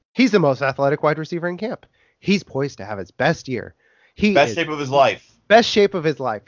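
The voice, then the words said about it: Imitates hyped sports commentator voice. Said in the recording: “my impression of Devontae Parker or people covering Devontae Parker every summer”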